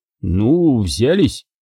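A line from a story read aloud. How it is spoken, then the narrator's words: Strained words. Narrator (Russian): выдавил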